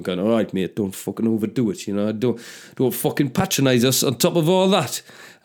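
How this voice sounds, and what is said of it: Put-on Stockton accent. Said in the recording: “I don't know whether that was close to being a Stockton accent.”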